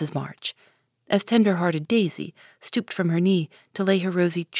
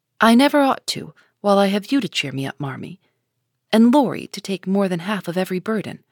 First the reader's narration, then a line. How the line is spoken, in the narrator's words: replied Amy warmly